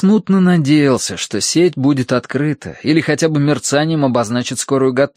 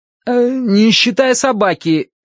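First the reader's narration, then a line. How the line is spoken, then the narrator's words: Shouted after someone. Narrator (Russian): крикнул я вдогонку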